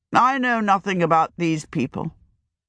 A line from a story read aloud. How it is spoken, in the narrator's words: he answered with an effort